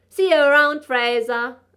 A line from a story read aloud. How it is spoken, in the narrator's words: I called out to the night